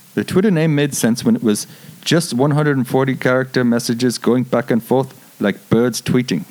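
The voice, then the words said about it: Elon Musk impersonation. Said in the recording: “do an Elon Musk impersonation ... I don't think he sounds like that, but good job.”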